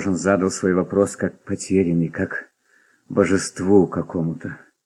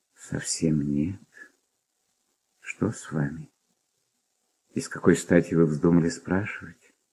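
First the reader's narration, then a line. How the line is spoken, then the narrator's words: Quiet, serious, slightly surprised. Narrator (Russian): Ответила она тихо и серьезно, как бы с некоторым удивлением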